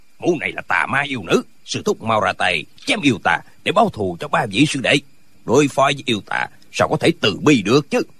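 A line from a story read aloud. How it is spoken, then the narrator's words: Angry speech. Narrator (Vietnamese): Tân Quốc Lương tức giận nói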